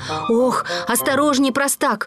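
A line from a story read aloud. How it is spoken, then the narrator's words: Shout. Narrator (Russian): крикнул Ворчун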